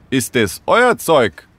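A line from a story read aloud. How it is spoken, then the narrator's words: Called out. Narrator (German): rief er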